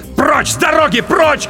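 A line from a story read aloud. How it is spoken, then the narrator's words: Shouted. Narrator (Russian): крикнул я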